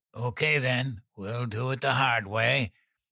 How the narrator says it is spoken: Dan grunted

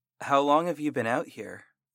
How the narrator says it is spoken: I asked

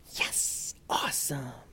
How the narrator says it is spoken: Momo heard the kids whisper cheering

